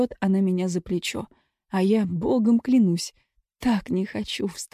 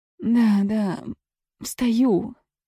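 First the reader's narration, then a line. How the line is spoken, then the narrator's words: Mumbling. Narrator (Russian): мямлю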